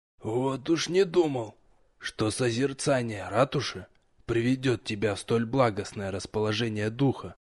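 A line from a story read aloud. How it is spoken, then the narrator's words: Sudden whisper from darkness. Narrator (Russian): Неожиданно шепнула темнота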